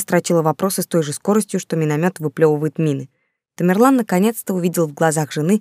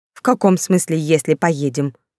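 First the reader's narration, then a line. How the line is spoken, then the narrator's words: Angry. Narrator (Russian): зло нахмурилась Женя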